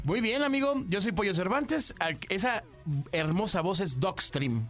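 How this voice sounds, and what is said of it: 1980s radio announcer voice. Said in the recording (Spanish): “voz de locutor ... tengo voz de locutor de los ochentas”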